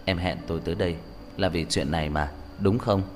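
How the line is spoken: Whisper. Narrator (Vietnamese): thì thầm

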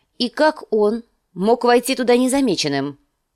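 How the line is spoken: Sharp question. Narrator (Russian): спросила Кейтилин резким тоном

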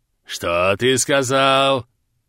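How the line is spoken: Growl. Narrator (Russian): прорычал Болдырь

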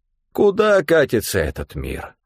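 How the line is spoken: Tragic sigh. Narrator (Russian): трагично вздохнул Стефан

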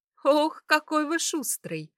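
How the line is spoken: Laughing. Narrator (Russian): рассмеялась

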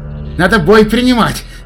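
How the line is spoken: Shout from behind. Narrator (Russian): крикнул шутер сзади

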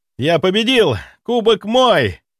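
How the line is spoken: Shout with cheerful laugh. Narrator (Russian): прокричал он и весело рассмеялся

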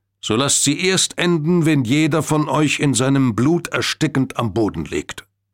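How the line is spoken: Loud declaration. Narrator (German): erklärte Churchill laut Dalton

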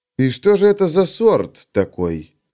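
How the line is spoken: Insinuating question. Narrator (Russian): вкрадчиво спросил Феликс

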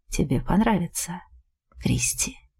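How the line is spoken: Whisper. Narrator (Russian): шепнул

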